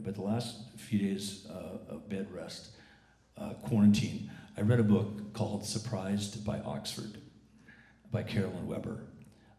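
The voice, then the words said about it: Rough, deep DJ-like sick voice. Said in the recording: “My fake FM DJ voice today is the result of being just down super sick for 2 weeks ... I still sound like I'm a train wreck”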